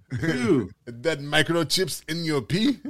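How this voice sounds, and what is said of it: Bad put-on Russian accent. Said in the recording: “That's my horrible Russian accent. ... That's a terrible Russian accent. That sounds like more Indian. ... Sounds like you're from Guadalajara or Bangladesh.”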